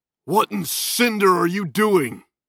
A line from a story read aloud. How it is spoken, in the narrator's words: Salgam yelled